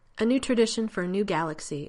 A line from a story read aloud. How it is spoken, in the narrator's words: Elizabeth says finally, her voice strong